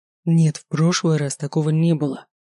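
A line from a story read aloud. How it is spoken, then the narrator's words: Angry reply. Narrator (Russian): зло ответил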